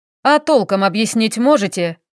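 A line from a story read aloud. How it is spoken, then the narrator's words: Barking. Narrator (Russian): рявкнул Стас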